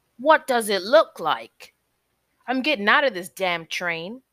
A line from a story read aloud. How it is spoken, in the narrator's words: barked